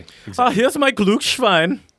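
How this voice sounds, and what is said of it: Put-on foreign accent. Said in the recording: “Whenever I do any sort of accent, I have like a deep regret as I'm doing it.”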